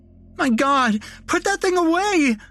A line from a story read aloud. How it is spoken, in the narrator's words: screamed the nurse